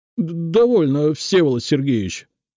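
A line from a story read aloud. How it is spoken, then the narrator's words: Stammering agitated exclamation. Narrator (Russian): заикаясь, то ли от гнева, то ли от волнения, воскликнул он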